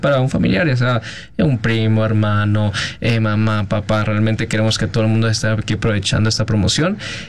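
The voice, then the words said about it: Colombian Spanish accent. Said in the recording (Spanish): “yo vi el acento del ... Traes el acento colombiano. ... Traes el acento.”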